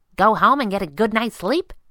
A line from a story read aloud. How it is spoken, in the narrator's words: asked brightly